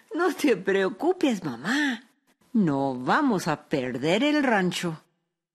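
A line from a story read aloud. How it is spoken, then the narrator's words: Lively young woman laughing. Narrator (Spanish): su hija Araceli, que era una joven lista y muy viva, se rió y dijo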